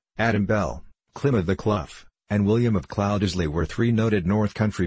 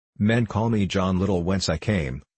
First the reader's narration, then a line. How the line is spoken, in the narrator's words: answered the stranger